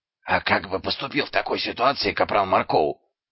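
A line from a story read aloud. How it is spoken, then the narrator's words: Whispered question. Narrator (Russian): шепотом спросил Дубинс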